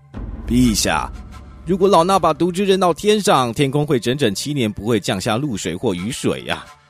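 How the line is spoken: Respectful report. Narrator (Chinese): 苏塔萨那叫禀告国王说

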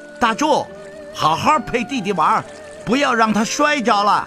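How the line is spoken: Shouting. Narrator (Chinese): 少年……大声喊道

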